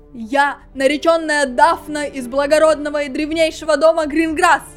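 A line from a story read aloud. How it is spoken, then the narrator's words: Shouting. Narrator (Russian): крикнула она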